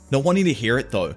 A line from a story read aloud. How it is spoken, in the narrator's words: Mitaka snaps back at her